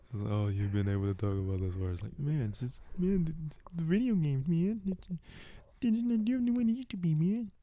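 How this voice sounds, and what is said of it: Mocking nerdy imitation of co-host. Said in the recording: “If you're going to at least give me a voice, can you try and imitate me correctly? Rather than give me some random nerd ... like that you came up with.”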